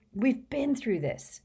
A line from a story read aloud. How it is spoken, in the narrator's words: said Harry crossly